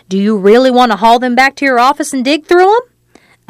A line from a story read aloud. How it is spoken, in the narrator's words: Annette snarled